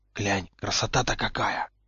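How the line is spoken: Whisper. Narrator (Russian): шепнул Поттер

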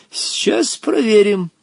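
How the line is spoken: Sly old man, feigned innocence. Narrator (Russian): промолвил хитрый старик таким тоном, словно он ничего и не задумал

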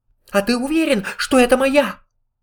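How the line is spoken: Excited squeak. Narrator (Russian): взволнованно запищал Пятачок

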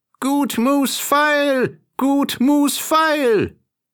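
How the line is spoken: Peasant woman calling out. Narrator (German): kam eine Bauersfrau die Straße herab und rief

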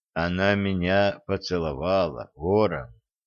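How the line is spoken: Quiet. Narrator (Russian): тихо сказал Олег

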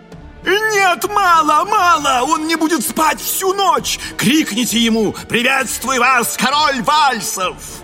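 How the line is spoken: Bell-like shout over orchestra. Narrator (Russian): Маргарита крикнула это и подивилась тому, что ее голос, полный как колокол, покрыл вой оркестра

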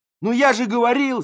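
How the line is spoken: Yelling. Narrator (Russian): заорал Колька

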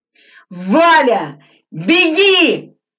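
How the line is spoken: Full-force shout. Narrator (Russian): что есть силы закричал Глебов

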